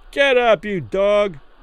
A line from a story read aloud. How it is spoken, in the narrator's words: some man yelled through the ropes from behind